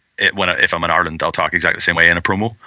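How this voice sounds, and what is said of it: Natural Irish accent. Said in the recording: “obviously being Irish... That's how I talk. I'm not putting on an accent.”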